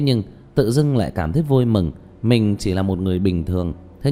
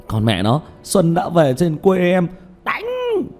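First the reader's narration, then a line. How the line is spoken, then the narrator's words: Loud shout. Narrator (Vietnamese): Tiểu Mã hét to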